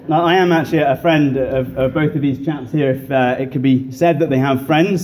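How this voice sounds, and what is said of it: British English accent. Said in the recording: “squat Brit ... You can probably tell from uh, my accent that uh, as indeed was said, I, I am not from around here”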